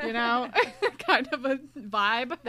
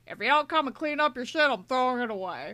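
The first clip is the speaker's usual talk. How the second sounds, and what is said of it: Old-timey gangster voice. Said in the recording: “That's your impression of Dad? ... spot on impression of Dad ... You're making him sound like an old-timey gangster.”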